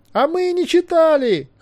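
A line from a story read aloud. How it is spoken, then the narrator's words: Shouted in chorus. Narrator (Russian): хором закричали все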